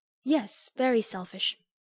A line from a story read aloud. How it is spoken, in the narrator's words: continued Amy in a calm, cool voice, twice as effective just then as an angry one